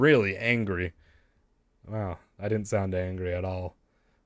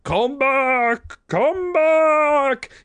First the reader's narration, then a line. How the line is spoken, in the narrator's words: Behind us, I could hear Ahmed shouting furiously